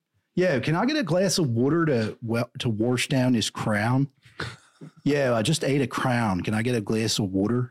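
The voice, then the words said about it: Attempted Philadelphia accent. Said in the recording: “It's a weird accent in Philly. I can't really do it.”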